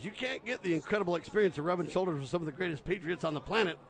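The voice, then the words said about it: Worn-out, strained voice. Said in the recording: “Sorry for my voice ... I've been doing literally about 12 hours of radio in 2 days, so it's a little bit out of control”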